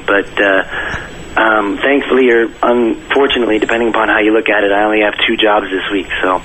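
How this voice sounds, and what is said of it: Raspy, nearly lost voice. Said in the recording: “What's with the sexy, raspy voice today? ... my voice has pretty much been gone for the last 2 days”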